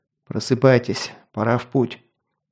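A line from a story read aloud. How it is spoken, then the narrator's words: Quiet. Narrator (Russian): негромко сказал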